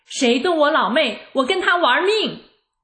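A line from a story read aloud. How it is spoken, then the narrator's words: Loud shout. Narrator (Chinese): 大声喊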